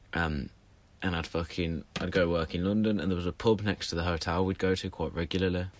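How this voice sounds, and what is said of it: Birmingham accent. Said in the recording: “I live in Birmingham. You could probably tell by the accent.”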